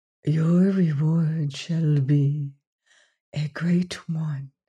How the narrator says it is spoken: she whispered even more softly

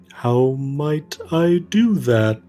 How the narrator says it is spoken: the stone giant, the kind of rumble of the ground underneath your feet

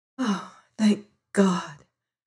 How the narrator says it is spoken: whispered

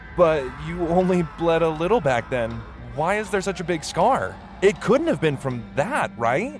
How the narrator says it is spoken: I said with a trembling voice and a slight laugh

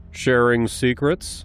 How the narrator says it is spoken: he asked

